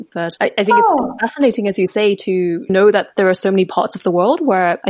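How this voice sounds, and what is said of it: British English accent. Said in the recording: “I'm from Malaysia. I was born in Malaysia, grew up there, and then moved to the UK, which is where I get my accent.”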